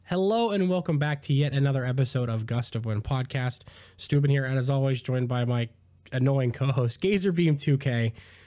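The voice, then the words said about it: Voice affected by a cold. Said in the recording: “I have a little bit of a cold, so if anything sounds weird or anything's goofy”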